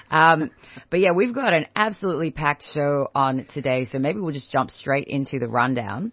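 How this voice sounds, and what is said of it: Croaky, hoarse voice. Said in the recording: “I sound a bit croaky, ... but the sexy voice. ... The thing that gets me to this voice is actually just a lot of yelling.”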